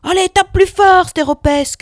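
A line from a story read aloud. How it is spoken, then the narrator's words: Shouting. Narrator (French): cria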